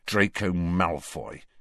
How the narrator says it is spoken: said Harry bitterly

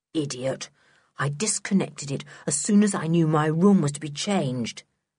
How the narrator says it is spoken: said Sooty scornfully

